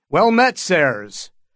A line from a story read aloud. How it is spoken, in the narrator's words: Dunk called out in a cheerful voice